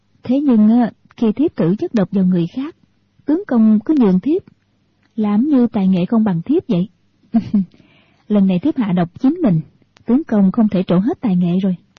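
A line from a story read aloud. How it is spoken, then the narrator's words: Smiling. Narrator (Vietnamese): Thiếu phụ mỉm cười, nói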